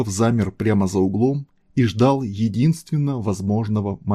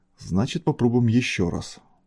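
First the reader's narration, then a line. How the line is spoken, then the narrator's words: Muttering. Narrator (Russian): пробормотал капитан ВДВ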